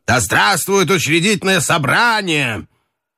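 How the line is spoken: Lively shout. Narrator (Russian): С непонятной живостью он крикнул офицерам

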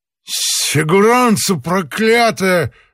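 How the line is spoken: Shouting. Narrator (Russian): закричал Остап

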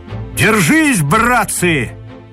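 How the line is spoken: Commander's shout. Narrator (Russian): крикнул командир

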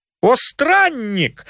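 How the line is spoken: Exclamation. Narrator (Russian): воскликнул Телемах

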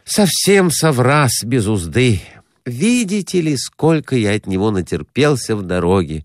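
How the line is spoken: Sighing. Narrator (Russian): вздохнул Перехватов

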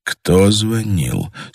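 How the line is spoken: Hushed question. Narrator (Russian): спросил Андрей тихо, чтобы голос его не долетал до стен

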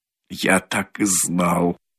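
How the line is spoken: Embarrassed mutter. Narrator (Russian): бормотал он в смущении

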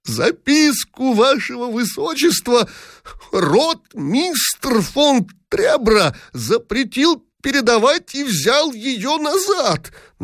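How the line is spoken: Creaky, extremely agitated. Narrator (Russian): Наконец проскрипел в последней степени возбуждения Дибич

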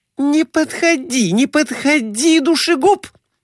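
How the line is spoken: Shrieking woman. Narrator (Russian): взвизгнула лежавшая на диване Глафира Семеновна

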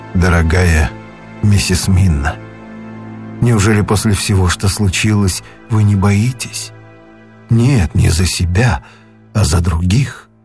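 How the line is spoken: Quiet. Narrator (Russian): Ван Хельсинг тихо произнес

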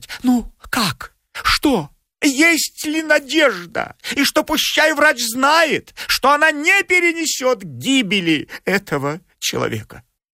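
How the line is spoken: Anxious babbling questions. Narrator (Russian): Лизочка Рундукова заламывая руки, стала лепетать и спрашивать

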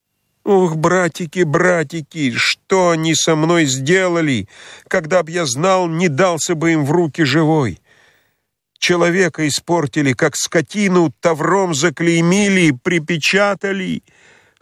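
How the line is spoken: Convulsive child's sobbing. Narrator (Russian): Судорожно всхлипывал Петька

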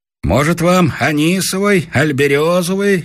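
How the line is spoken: Innkeeper calling out. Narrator (Russian): крикнул нам из-за стойки трактирщик

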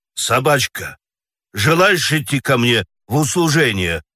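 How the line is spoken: Plain question. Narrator (Russian): спросил председатель

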